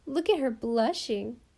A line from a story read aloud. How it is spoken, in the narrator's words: giggled Mamie Taylor